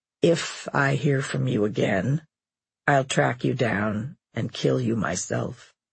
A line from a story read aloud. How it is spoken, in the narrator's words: he said calmly